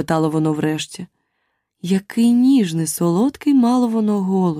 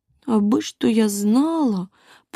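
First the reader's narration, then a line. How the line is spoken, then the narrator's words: Sad, aloud. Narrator (Ukrainian): подумала бідолашна Аліса і сумно промовила в голос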